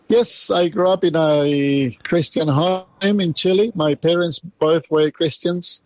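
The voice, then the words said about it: Slight Chilean accent in English. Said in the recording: “you have a little accent there ... I'm an Aussie with accent”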